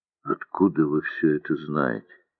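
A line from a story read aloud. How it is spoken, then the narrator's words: Muffled, hollow question. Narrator (Russian): глухо спросил Морозов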